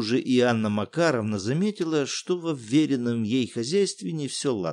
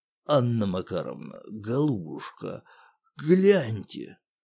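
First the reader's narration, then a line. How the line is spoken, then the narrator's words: Hoarse voice. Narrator (Russian): сиплым голосом произнес управдом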